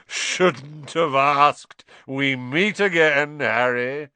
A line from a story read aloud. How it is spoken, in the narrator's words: thundered jovially